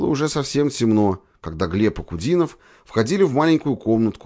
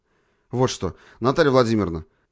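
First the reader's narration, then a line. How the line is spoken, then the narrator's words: Businesslike tone. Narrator (Russian): Деловым тоном обратился к девушке Глеб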